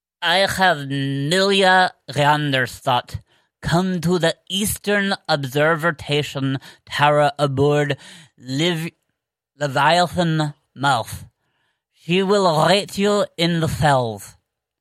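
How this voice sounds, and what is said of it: Put-on fun accent, poorly done. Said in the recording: “I will read this with a very fun accent ... That was not how I normally do that ... that wasn't good. That wasn't my normal apparat voice.”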